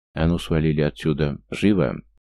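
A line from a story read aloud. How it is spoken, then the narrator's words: Through gritted teeth. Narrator (Russian): сквозь зубы подсадил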